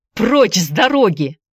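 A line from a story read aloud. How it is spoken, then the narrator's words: Shout. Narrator (Russian): закричал он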